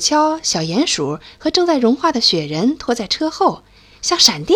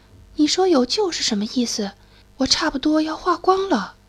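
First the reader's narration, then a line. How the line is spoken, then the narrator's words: Quiet voice. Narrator (Chinese): 雪人小声说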